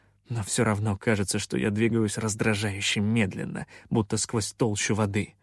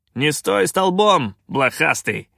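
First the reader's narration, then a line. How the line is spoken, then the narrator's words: Barked. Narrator (Russian): рявкнул капитан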